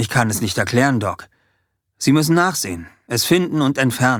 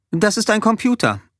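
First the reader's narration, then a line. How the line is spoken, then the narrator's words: Plain. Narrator (German): antwortete sie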